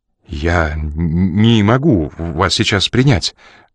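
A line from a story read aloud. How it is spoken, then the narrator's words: Trembling voice. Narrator (Russian): дрожащим голосом проговорил он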